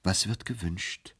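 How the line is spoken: Gentle question. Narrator (German): fragte er sanft

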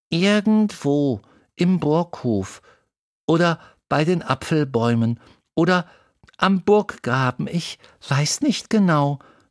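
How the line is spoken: Plain. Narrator (German): sagte Lisbeth

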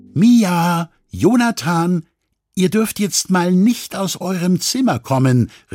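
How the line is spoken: Mother calling. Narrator (German): rief Mama

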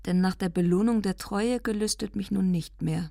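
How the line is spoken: Calm. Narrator (German): sagte ruhig

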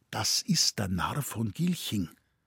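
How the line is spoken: Quiet. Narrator (German): Mein Bruder sagte leise

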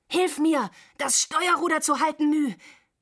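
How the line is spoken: Panting. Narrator (German): keuchte Dwan

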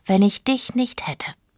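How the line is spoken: Sighing. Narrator (German): seufzte Fjolla

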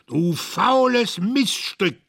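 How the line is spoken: Shouting. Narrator (German): schrie

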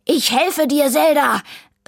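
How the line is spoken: Called from hiding. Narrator (German): rief Vivaldi aus seinem Versteck

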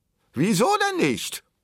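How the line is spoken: Shout from back row. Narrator (German): rief jemand aus der letzten Reihe

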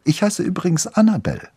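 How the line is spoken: Girl after laughing. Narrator (German): sagte das Mädchen, als sie beide wieder aufgehört hatten zu lachen

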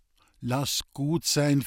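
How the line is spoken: Calmly interjecting. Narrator (German): fiel Lisbeth ruhig ein

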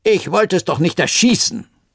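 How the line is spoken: Man calling out. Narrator (German): rief der Mann in langen Hosen

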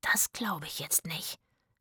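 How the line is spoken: Whispering. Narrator (German): flüsterte Zora

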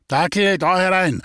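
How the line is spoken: Calling out. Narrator (German): ruft der Jäger

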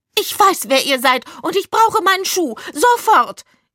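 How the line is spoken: Shrill shriek. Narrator (German): kreischte sie mit einer echt schrillen Stimme

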